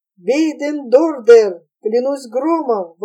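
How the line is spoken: Exclaimed. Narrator (Russian): воскликнул Питер Ван Хольт, обращаясь к Карлу Схуммелю

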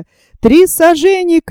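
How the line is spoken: Shouted. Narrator (Russian): крикнул Вильсон

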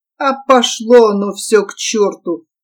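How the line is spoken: Sudden mutter. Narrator (Russian): неожиданно пробормотал Беденко

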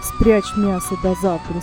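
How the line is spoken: Plain. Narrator (Russian): сказал Шигайбай

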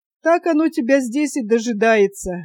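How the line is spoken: Listless laugh. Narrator (Russian): вяло засмеялся Юра

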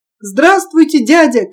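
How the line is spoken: Shout. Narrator (Russian): крикнул Петя

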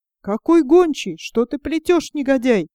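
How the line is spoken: Angry shout. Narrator (Russian): закричал злой пан

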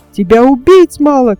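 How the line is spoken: Shouting. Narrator (Russian): кричал он

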